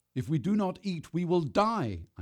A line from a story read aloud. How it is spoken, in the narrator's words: I shouted at her